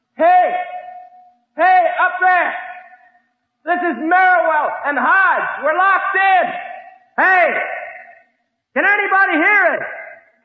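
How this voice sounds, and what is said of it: Yelling loudly. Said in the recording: “Let's try yelling through it ... yelling into an empty pipe ... Keep yelling”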